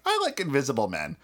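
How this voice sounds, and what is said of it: Imitates another person's voice. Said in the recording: “Is that your impression of me?”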